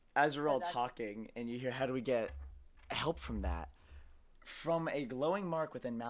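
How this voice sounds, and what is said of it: Usual voice. Nothing is said of it.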